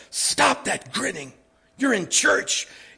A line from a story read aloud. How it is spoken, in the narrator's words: his mother in a stage whisper that could be heard in a little theater off Broadway said